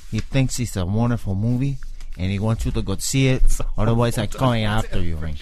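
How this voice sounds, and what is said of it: Badly done movie gangster accent. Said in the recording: “Tony Montana ... His accent's so bad.”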